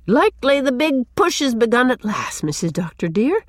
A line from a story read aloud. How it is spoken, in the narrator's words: she exclaimed